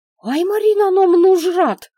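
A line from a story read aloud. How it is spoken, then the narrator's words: Girl squealing. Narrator (Russian): взвизгнула девчонка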